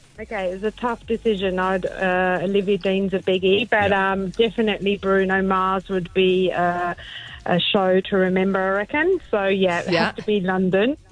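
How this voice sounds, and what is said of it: Slight English accent. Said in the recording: “do I catch a hint of an English accent there ... Yeah, just a tad, yes.”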